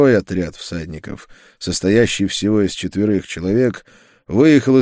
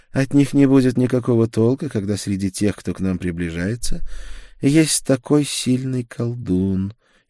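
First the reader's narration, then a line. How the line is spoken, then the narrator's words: Very calm. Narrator (Russian): еще более спокойно ответила она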